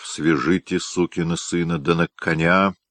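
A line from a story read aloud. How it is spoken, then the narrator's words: Angry trembling growl. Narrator (Russian): Побледневший, трясясь от злобы, Грязной проворчав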